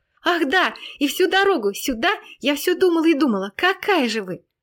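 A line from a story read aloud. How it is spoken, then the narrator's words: Excited little girl. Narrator (Russian): воскликнула малышка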